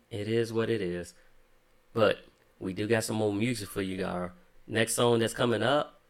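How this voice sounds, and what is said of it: Slight country twang. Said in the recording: “I just sounded so country ... Got a little twang coming on? ... a little country”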